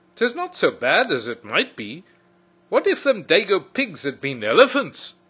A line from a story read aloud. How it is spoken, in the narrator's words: he said cheerfully